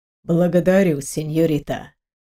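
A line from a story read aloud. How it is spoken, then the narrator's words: Soft, smiling. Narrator (Russian): Мягко улыбнулся молодой человек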